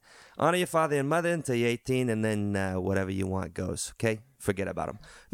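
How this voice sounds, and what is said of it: Speaks in a put-on accent. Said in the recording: “Why am I getting an accent? I'm just going to stick with it.”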